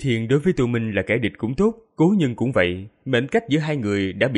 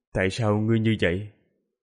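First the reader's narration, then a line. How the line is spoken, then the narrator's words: Soft sigh. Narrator (Vietnamese): Tô Minh khẽ thở dài rồi nói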